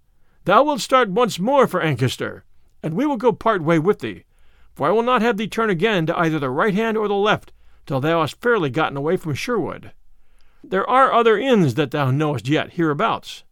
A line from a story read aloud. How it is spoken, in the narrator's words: said Robin, turning to him and laughing